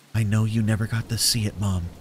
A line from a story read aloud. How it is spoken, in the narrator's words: I whispered as tears streamed down my cheeks